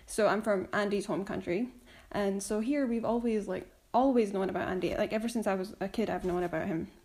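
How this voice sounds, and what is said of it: Scottish accent. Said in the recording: “I'm from Scotland, as you can probably tell from my accent.”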